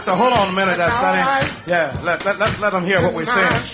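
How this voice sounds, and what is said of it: Mississippi Southern accent. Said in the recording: “this Mississippi accent I got”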